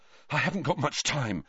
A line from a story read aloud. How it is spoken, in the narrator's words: Harry panted